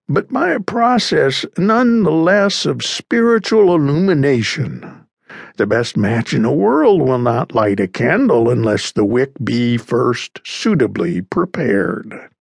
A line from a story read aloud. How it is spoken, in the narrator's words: sighed the other